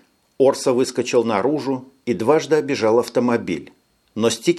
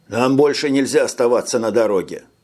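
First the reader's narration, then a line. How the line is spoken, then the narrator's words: Plain. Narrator (Russian): ответил Орса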